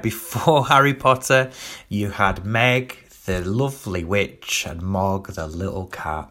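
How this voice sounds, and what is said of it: Doncaster Yorkshire English accent. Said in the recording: “If you're wondering where this accent's from, it's from Doncaster.”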